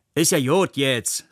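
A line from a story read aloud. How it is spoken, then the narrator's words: Woman calling out. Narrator (German): rief eine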